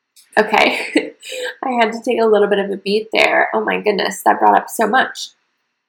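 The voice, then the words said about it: Emotional, choked-up voice. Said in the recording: “this is getting emotional. I just didn't know how emotional.”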